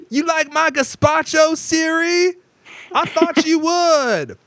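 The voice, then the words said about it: Yelling Samuel L. Jackson impression. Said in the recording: “Samuel L. Jackson ... stop yelling? No, I can't stop yelling.”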